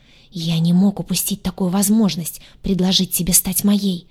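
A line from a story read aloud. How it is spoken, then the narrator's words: Fast whisper. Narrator (Russian): шепотом заговорил он быстро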